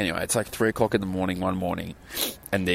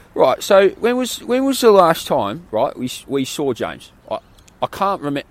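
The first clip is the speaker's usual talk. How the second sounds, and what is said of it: Put-on English accent, fairly good. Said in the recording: “these English guys ... That was a pretty good accent.”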